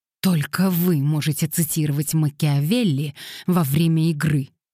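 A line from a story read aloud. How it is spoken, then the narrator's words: Curt, through teeth. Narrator (Russian): сквозь зубы бросила она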